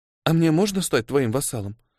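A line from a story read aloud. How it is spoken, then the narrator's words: Timid question. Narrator (Russian): робко спросила Микки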